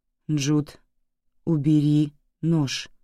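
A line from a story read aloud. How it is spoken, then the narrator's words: Calm. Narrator (Russian): спокойно произнесла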